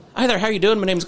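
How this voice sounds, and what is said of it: Exaggerated put-on Irish accent. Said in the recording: “very strong Irish accent ... put the, on like a terrible accent”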